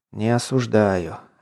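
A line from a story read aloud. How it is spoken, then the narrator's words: Commented. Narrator (Russian): устало прикрыв глаза, прокомментировал Воронцов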